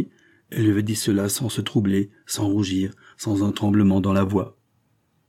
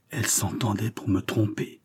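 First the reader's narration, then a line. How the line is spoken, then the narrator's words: Male murmur. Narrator (French): murmura-t-il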